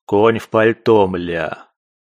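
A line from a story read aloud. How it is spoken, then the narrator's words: Grumbled. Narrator (Russian): проворчал незнакомец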